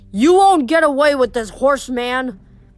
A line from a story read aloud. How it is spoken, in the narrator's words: Luke shouted